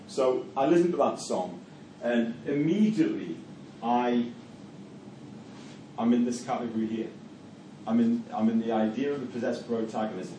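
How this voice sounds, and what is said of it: Geordie Newcastle English accent. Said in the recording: “If anyone can tell where I'm from, via my accent, Newcastle. ... a Geordie accent”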